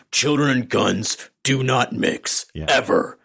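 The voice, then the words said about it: Imitates another person's voice. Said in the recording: “How's my Kevin Conroy impression? ... Nah, need some work.”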